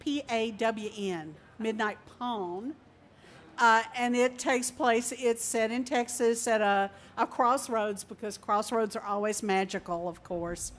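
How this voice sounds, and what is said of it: Speaks with a regional accent. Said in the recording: “Can you understand my accent? Because in Australia, they totally didn't get it.”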